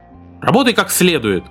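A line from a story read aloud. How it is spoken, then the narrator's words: Sharp shout. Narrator (Russian): прикрикнул Эвик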